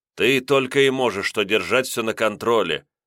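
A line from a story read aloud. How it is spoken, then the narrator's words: Rude and angry. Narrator (Russian): грубо, не сдержавшись со злостью, ответил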